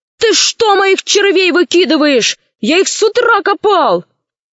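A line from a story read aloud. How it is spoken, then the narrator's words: Shouting after running up. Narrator (Russian): Удалов, который как раз подбежал к ней, закричал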